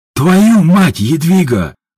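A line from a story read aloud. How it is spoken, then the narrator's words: Roared. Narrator (Russian): взревел Ажуров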